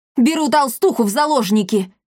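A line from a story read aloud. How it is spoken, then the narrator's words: Shout. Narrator (Russian): крикнул Триш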